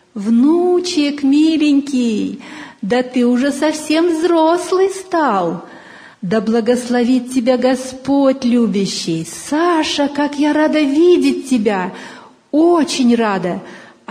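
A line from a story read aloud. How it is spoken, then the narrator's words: Grandmother, singsong. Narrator (Russian): Бабушка нараспев проговорила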